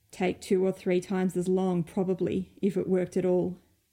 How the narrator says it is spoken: Regent grumbled

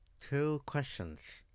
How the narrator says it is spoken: the Asian girl mumbled, her teeth still gripping the mask leather between them

